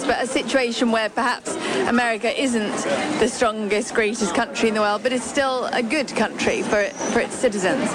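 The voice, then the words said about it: English accent. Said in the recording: “do I detect an English accent?”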